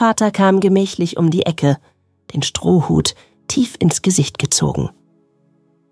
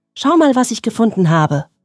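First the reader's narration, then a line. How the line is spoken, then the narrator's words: Excited call. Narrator (German): rief Jonas aufgeregt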